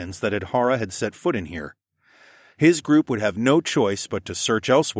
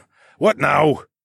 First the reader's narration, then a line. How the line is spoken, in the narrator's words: Begbie barked